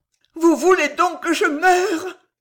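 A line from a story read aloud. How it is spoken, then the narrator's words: Low, rapid, breathless, feverish. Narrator (French): rapides, haletantes, fiévreuses, furent faites de part et d'autre d'une voix basse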